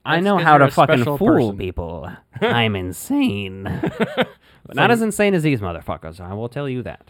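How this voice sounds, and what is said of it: Imitates another person's voice. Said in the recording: “That was a very good Conan O'Brien impersonation there. Like the mannerisms. ... I thought he was doing Joker from Dark Knight. ... The voice reminded me of Conan, too, like in that range.”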